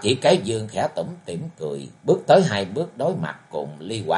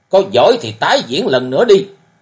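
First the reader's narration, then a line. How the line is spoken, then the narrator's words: Shouted. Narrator (Vietnamese): Cầu Long Dư Phong cũng hét lên nói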